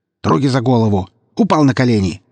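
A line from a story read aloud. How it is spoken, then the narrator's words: Shouted. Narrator (Russian): крикнул лейтенант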